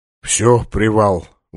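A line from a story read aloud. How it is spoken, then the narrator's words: Breathed out, tired. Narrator (Russian): выдохнул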